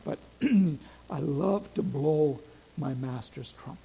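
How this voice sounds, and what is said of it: Put-on Scottish accent. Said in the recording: “As he said in a Scottish accent”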